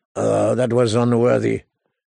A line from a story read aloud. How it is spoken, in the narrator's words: he mumbled